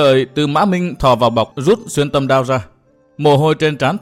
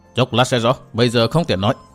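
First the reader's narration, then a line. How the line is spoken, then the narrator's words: Cold. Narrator (Vietnamese): Lạc Tử Khư lạnh lùng nói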